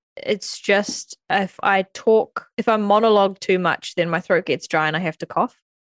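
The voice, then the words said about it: Husky, sick-sounding voice. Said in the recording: “I've got my sexy voice on this week. Still recovering from... I got sick.”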